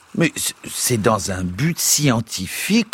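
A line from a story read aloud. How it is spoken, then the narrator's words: Plain. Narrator (French): répondit Pécuchet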